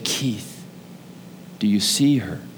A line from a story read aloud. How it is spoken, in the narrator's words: I heard Jesus whisper to my heart, and he said